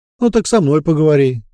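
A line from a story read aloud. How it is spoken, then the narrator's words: Snorting chuckle. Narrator (Russian): предвестник хмыкнул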